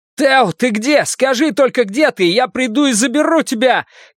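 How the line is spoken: Shouting into phone. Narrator (Russian): крикнул Фабиан в трубку

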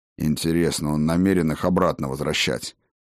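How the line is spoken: Grumbling mutter. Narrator (Russian): пробурчал Скёльд

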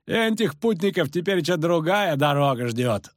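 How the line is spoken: Loud laughing. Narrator (Russian): захохотал второй

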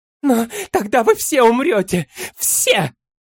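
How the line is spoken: Shrieking. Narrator (Russian): Взвизгнула Тубала

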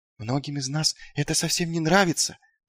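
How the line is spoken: Whisper. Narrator (Russian): прошептал он

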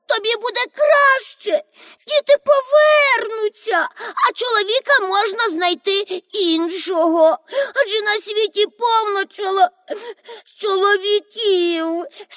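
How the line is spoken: Sobbing woman. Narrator (Ukrainian): схлипувала вона

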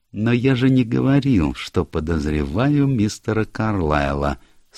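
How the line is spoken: Meek purr. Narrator (Russian): смиренно промурлыкал Пуаро

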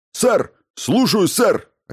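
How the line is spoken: Sharp bark. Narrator (Russian): рявкнул он

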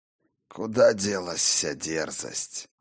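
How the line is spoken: Sighing. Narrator (Russian): вздохнул Один

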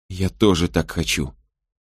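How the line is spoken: Repeated inner whisper. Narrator (Russian): снова и снова шептал Мэгги внутренний голос

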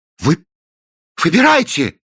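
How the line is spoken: Exclamation. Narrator (Russian): воскликнул Кранк

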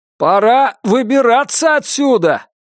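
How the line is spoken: Shouted. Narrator (Russian): прокричал им Джейк

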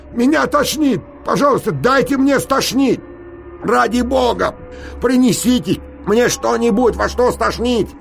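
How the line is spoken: Nauseated shouting. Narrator (Russian): Теперь я уже определенно должен был блевануть, и я закричал

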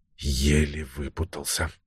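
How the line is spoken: Muttered to himself. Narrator (Russian): пробормотал он, обращаясь к себе самому

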